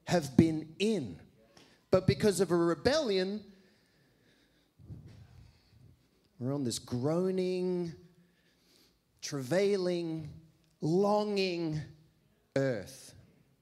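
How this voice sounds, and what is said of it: Loud, shouting delivery. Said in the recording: “I'm sorry I'm shouting. I'm a shouter as well.”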